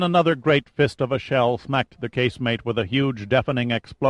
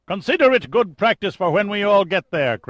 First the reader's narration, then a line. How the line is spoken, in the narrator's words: Craven snapped back